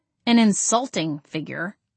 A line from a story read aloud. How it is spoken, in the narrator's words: I grumbled